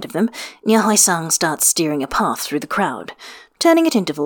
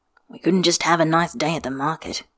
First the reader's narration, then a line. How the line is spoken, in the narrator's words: Jiang Cheng mutters